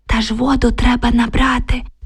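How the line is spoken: Whispered reply. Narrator (Ukrainian): прошепотіла Оксана у відповідь

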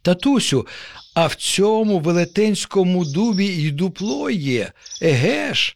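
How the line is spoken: Joyful exclamation, child. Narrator (Ukrainian): радісно вигукнув нащадок

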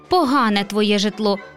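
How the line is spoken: Cranky grumble. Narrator (Ukrainian): буркнула вередлива гостя

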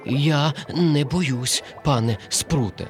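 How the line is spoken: Trembling voice. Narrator (Ukrainian): тремтячим голосом мовив коник

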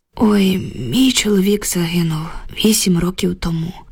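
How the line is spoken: Heavy sigh. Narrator (Ukrainian): важко зітхнула Люба

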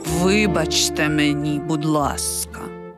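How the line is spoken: Quiet. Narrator (Ukrainian): тихо звався Сальєрі

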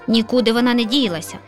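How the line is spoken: Lazy grumble, yawning. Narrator (Ukrainian): ліниво буркнула сусідка і солодко позіхнула

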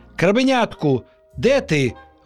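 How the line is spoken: Exclaiming. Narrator (Ukrainian): вигукнула вона

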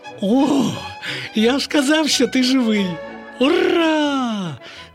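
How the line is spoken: Exclaimed. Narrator (Ukrainian): Вигукнув Славко

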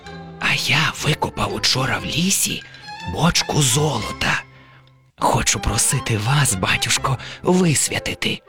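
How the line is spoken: Whispered. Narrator (Ukrainian): Убогий ... нахиливсь до вуха батюсті та й каже пошепки

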